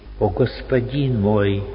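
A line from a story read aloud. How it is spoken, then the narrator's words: Sudden deep sigh. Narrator (Russian): вдруг вздохнул глубоко Араим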